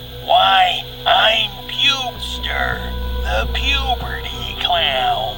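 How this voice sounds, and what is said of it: Gravelly cartoon clown voice. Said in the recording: “said in a gravelly Krusty the Clown impersonation.”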